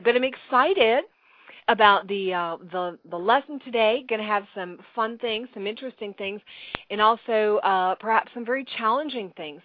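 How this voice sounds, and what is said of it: Slightly crackly voice. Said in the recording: “I do have this lingering cough ... My voice is also just a tiny bit crackly”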